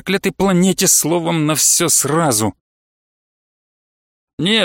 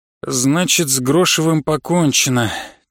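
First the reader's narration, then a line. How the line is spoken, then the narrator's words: Heavy sigh. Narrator (Russian): тяжело вздохнул Жамахов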